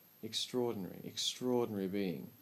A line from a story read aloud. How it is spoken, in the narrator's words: whispered Mina